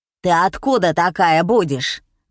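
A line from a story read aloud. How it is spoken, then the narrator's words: Menacing old woman. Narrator (Russian): грозно спросила старуха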